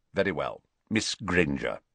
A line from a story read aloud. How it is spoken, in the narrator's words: Snape saying curtly